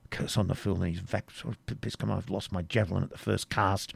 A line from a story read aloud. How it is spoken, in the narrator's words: replied Cedric in good Saxon, and at the same time muttered to himself